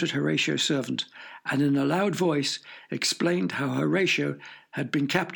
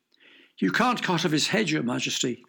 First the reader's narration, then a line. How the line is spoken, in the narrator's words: cried the servant